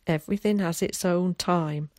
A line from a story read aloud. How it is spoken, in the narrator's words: laughed